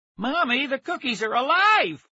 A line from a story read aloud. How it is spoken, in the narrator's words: one of the kids shouted